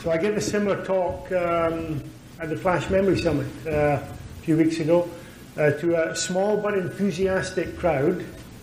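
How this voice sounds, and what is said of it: Speaks with a noticeable accent. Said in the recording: “Can everybody understand my accent?”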